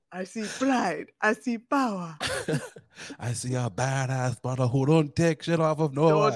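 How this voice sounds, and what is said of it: Bad put-on Jamaican-sounding accent. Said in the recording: “Worst Jamaican accent ever... Scottish accent, but okay. Any accent that I do usually ends up sounding like a terrible Jamaican accent.”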